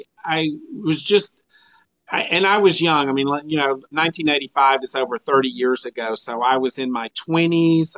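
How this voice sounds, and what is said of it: Slight rural Georgia accent. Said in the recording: “I grew up here in Georgia, in rural Georgia ... tell by your accent. ... Yes, I have a little accent.”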